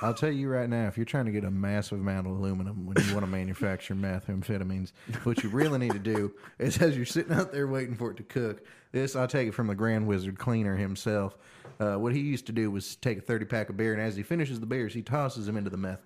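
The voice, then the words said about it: Put-on Southern American accent. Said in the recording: “Southern accent improv... Southern accent improv”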